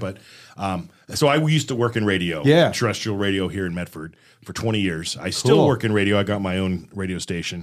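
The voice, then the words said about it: Polished radio announcer voice. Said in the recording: “You got a bit of a radio voice.”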